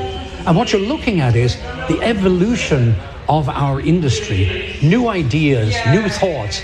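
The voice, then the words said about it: Irish accent. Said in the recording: “30-plus years in Texas, and they can't break the Irishman out of you”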